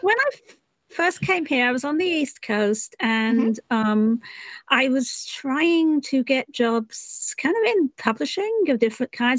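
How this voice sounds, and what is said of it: English accent. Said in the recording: “you can hear from my accent, I'm not originally from here. I was from England originally.”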